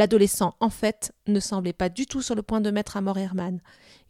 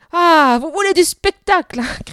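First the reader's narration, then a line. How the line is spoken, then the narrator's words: Shouted. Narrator (French): cria-t-il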